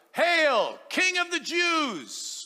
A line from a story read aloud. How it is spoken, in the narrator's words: they began to shout